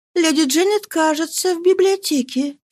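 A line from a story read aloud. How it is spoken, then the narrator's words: Timid. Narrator (Russian): сказала робко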